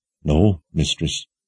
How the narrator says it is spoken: Nearly everyone shook their heads as they all mumbled

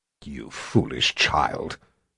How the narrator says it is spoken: Sister Ulysia growled

